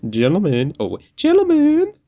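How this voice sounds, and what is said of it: Playful female dolphin character voice. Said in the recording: “your female dolphin impression”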